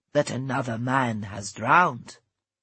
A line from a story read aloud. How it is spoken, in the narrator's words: she spoke gravely